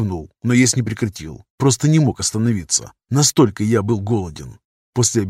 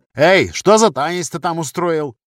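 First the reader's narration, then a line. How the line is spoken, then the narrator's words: Playful shout. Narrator (Russian): задорно выкрикнул один из учеников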